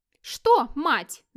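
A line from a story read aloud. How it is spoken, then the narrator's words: Shouting at full voice. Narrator (Russian): закричала фру Отборг в полный голос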